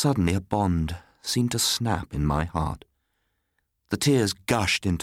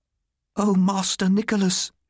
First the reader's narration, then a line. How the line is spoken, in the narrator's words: she cried